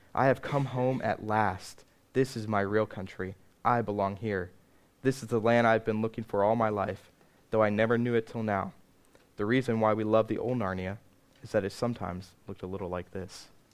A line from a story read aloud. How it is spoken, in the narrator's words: neighed and then cried